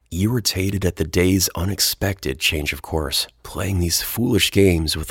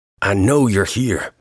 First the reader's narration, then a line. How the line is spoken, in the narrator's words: Metzger shouted, his voice bursting through the ambient sounds like the shriek of a train whistle